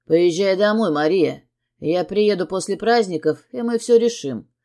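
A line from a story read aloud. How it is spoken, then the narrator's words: Stern. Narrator (Russian): строго говорит Сергей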